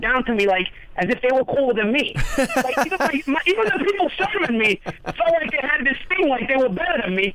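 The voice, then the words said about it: Brooklyn accent. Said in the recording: “everybody really got a kick out of my accent ... nobody thinks my accent is cool when I'm in Brooklyn, because everybody has the same accent.”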